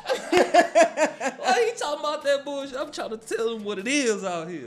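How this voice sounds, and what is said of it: Smooth late-night radio DJ voice. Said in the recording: “done put on his Quiet Storm voice ... And now we have the Quiet Storm.”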